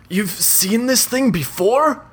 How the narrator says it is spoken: he shouts over the cacophony

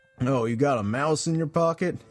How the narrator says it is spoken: he asks <laughs> sarcastically

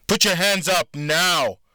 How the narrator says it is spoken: the guard screamed

